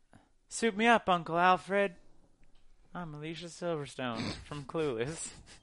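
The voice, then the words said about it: Imitates another person's voice. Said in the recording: “that's a really good impersonation of her in the movie. That's kind of how she spoke and sounded.”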